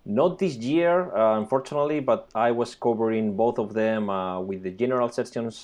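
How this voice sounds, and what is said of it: Spanish accent. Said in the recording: “I'm originally from Spain, as you can hear by my accent.”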